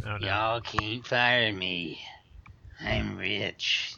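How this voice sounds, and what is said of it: Imitates another person's voice. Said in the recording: “can we get a Bobby Petrino impression again?”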